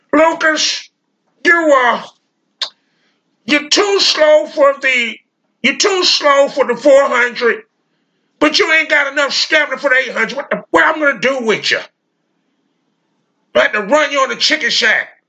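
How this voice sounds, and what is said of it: Imitates another person's voice. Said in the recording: “I'm going to do his voice”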